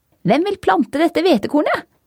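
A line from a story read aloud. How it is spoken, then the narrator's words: Shouted. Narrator (Norwegian): ropte hun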